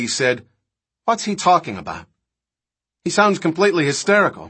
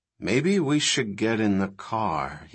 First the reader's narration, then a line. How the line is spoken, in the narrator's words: he said quietly